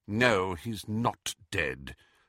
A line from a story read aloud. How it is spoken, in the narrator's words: said McGonagall bitterly